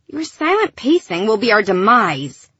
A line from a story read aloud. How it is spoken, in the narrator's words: Gilly had hissed at Lyra